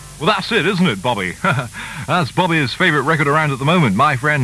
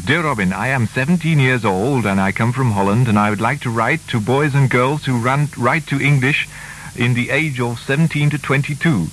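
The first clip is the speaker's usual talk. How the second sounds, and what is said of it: Put-on Dutch accent. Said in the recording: “put on a kind of Dutch accent”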